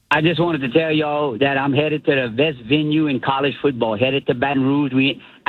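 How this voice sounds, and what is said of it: Distinctive regional accent. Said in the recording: “I love that accent. ... That accent is amazing.”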